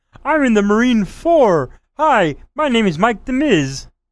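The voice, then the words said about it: Miz impression sounding like Fozzie Bear. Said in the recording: “Sound like Fozzie Bear there for a second. Yeah, I'm Miz impression.”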